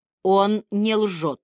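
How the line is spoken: Cold interruption. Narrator (Russian): холодно прервал его Вайланд

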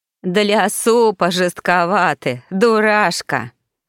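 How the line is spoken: Bursting with laughter. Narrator (Russian): закатилась в хохоте Ритва

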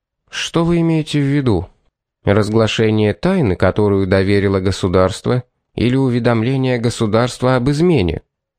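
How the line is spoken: Quiet question. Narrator (Russian): тихо спросил Пит

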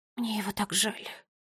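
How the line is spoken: Whisper. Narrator (Russian): прошептала Бунтесса

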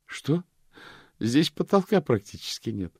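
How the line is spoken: Laughing. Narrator (Russian): рассмеялась госпожа Ласка

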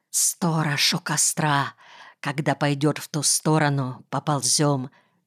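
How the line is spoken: Whispered. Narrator (Russian): прошептал Земсков

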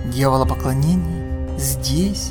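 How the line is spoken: Horrified mutter. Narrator (Russian): в ужасе пробормотал Харрис

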